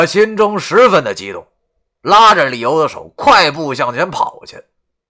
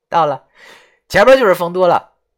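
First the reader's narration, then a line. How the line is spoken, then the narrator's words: Smiling. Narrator (Chinese): 李由笑着跟我说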